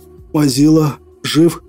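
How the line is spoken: Strained hoarse croak. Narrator (Russian): Прохрипел я, с трудом проталкивая слова в глотку

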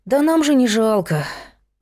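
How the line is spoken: Sighing. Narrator (Russian): вздохнул Петя

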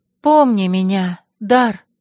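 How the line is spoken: Sobbing. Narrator (Russian): я всхлипнула

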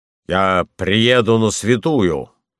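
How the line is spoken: Rough, deep, disguised bass. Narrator (Russian): ответил я грубо, низким и тоже не своим басом

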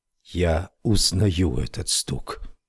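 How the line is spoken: Whisper. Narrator (Russian): прошептал он

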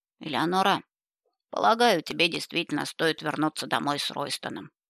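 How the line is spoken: Calm elderly woman. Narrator (Russian): спокойно согласилась вдовствующая герцогиня

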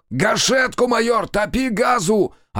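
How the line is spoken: Yelling. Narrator (Russian): орал Демьян

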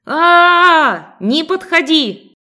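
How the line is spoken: Terrified scream. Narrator (Russian): В ужасе заорала

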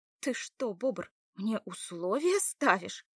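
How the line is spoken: Blurted indignantly. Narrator (Russian): Выпалила Лада возмущенно

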